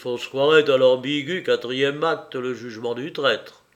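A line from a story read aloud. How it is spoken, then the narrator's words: Captive murmuring. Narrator (French): murmura le captif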